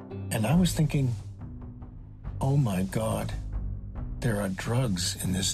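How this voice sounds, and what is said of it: Usual voice. Nothing is said of it.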